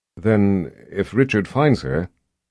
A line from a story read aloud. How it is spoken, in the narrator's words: Nicky asked in a weak voice